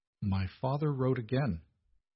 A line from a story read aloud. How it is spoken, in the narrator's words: said quietly